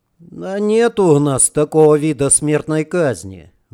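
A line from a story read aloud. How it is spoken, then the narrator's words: Sigh. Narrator (Russian): вздохнул Шумилов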